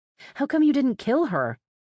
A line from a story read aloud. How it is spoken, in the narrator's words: I exclaimed